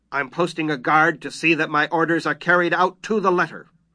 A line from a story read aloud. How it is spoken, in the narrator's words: His face clouded, and he growled